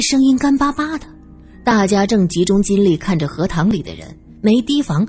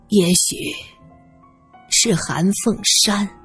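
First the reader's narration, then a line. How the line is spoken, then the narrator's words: Hoarse voice. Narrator (Chinese): 地上一个沙哑的声音说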